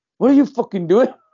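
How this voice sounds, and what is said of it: Poor put-on Geordie accent. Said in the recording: “Was that your Geordie accent? ... That was terrible.”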